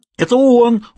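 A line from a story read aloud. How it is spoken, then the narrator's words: Screaming. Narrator (Russian): завопила мадам Эмили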